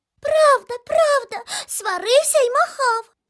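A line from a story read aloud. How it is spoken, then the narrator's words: Squeaking mice. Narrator (Ukrainian): запищали інші миші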